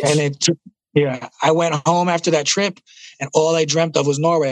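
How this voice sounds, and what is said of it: Thick New York accent. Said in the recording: “the thick New York accent”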